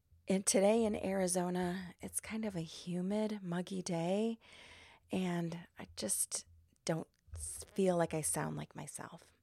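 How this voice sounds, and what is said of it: Slightly hoarse, froggy voice. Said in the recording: “my voice is a little froggy today”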